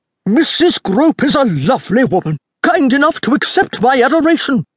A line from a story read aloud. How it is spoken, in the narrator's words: Roberta's father roared, loud enough so that no one in the room could miss a word